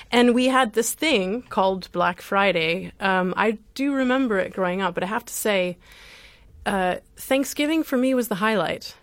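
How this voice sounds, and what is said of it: Midwestern American accent. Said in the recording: “hear from my voice that I grew up in North America, in the U.S., in the middle of the U.S.”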